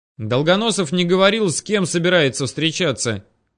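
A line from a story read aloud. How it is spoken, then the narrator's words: Shouting to next room. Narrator (Russian): крикнул я в соседнюю комнату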